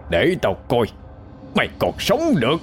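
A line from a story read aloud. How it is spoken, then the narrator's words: Hoarse yell. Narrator (Vietnamese): miệng gào lên khàn khàn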